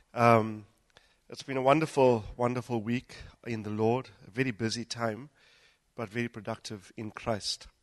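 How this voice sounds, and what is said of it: Unwell, affected voice. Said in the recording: “Excuse my voice. I've been battling bouts of the flu”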